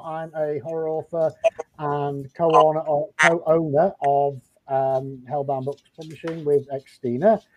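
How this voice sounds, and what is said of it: Noticeable foreign accent, speaking slowly. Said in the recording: “apologies for the accent. I don't come with subtitles, unfortunately. So I'll speak slowly.”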